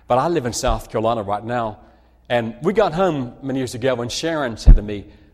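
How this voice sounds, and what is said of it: Speaks with a noticeable accent. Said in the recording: “trying to figure me out as I'm speaking to you with my accent”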